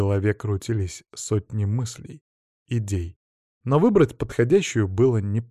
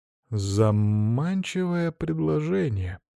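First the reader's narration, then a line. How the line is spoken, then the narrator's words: Feigned drawl. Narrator (Russian): наигранно протянул я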